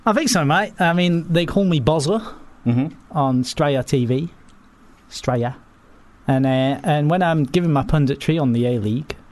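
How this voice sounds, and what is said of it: Put-on Australian accent. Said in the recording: “I'm beginning to believe that you've never been to Australia in your entire life. ... This accent is absolutely spot on.”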